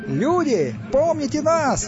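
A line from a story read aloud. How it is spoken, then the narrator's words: Shouted. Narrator (Russian): выкрикнул Стас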